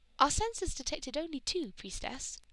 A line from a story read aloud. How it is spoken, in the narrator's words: one of the clerics piped up